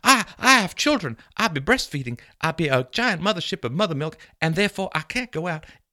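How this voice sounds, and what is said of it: Put-on accent. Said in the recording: “I don't know why the accent is.”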